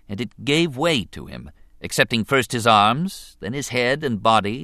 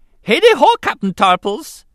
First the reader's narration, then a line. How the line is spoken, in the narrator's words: Jar Jar greeted cheerfully